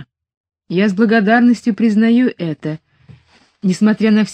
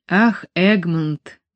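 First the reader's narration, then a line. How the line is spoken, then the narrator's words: Sigh. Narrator (Russian): вздохнула она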